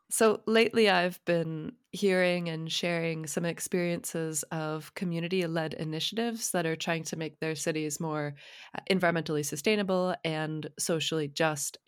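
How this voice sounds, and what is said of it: Congested voice from a cold. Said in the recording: “I have a cold today, so excuse the sound of my voice”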